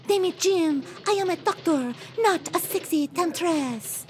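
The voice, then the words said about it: Poor put-on French accent. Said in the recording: “Would you lay off the French accent? It's not even good.”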